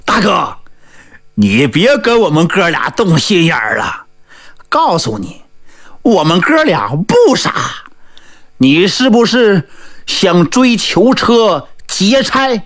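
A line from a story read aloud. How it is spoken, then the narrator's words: Hearty laughter. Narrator (Chinese): 二呆子王琦是哈哈大笑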